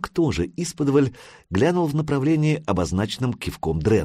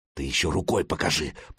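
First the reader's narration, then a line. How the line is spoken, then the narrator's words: Hissing. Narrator (Russian): прошипел Хирдман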